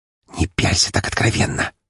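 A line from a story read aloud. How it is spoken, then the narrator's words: Whisper in ear. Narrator (Russian): прошептала Валькирия мне на ухо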